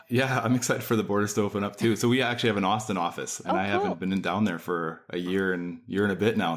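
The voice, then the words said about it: Canadian accent. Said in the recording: “I am Canadian ... It's funny when somebody can recognize your accent.”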